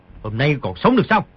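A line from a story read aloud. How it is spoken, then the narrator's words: Shout. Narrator (Vietnamese): quát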